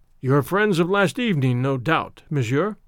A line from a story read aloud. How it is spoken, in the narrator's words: remarked Kadur ben Sadin dryly